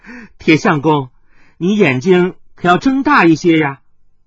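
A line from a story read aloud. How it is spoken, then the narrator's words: Girl giggling. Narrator (Chinese): 那红衣少女咯咯的笑道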